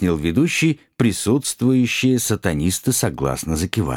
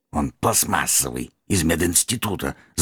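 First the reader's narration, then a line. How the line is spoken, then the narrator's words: Angry hiss. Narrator (Russian): злобно прошипел магистр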